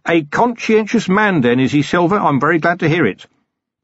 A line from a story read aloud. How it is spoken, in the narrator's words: said loudly for the hidden listener